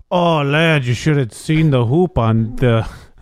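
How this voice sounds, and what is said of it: Poor put-on Irish accent. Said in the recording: “That was a terrible Irish accent.”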